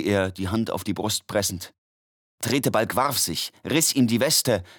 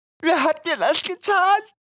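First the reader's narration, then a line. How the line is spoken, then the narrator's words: Whimpering. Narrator (German): wimmerte Quilippi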